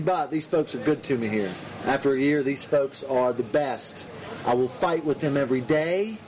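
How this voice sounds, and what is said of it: Southern American drawl. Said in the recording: “the southern drawl”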